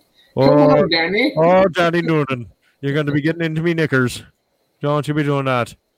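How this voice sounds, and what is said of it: Phony put-on Irish accent. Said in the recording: “her phony Irish accent. What was with the Irish accent”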